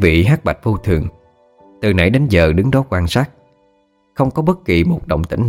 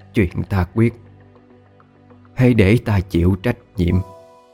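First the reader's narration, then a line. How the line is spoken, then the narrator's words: Smiling whisper to herself. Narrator (Vietnamese): bà tự mỉm cười, thì thầm nói với chính mình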